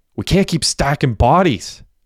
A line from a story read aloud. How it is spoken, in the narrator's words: Derek shouted